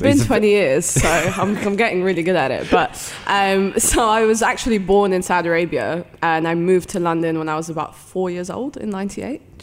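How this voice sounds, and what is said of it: British accent. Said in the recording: “my British accent is fake ... It seems very real”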